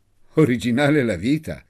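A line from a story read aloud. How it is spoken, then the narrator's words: Said laughing. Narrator (Italian): disse Guido ridendo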